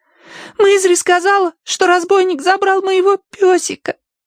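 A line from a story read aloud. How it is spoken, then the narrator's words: Trembling babble. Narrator (Russian): дрожа пролепетала Агнес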